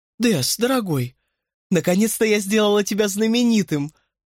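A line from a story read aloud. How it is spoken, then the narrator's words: Ecstatic exclamation. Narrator (Russian): В полном восторге воскликнула Клэр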